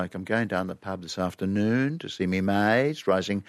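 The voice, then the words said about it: High-rising intonation mid-sentence. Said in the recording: “high-rising tone in the middle”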